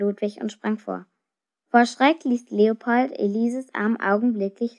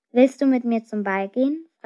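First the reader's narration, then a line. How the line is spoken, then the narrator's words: Plain. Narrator (German): fragte Elise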